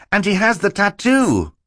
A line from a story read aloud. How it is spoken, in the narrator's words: Klaus cried